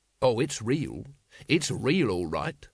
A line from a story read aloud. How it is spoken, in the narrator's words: said Vimes bitterly